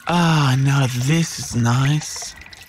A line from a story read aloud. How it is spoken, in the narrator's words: sighed the Yowie